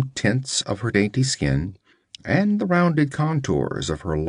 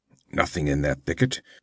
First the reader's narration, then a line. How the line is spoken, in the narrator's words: he growled